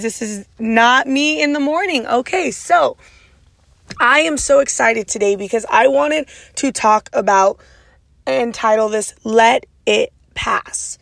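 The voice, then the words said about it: Raspy voice. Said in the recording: “my raspy voice decided to come back full time ... my raspy voice is here to stay ... this is my normal raspy voice”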